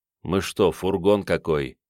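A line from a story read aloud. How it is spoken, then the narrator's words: Grumbling. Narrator (Russian): бурчал Равиль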